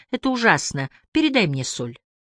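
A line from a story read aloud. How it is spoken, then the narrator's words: Calm. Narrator (Russian): мы спокойно говорим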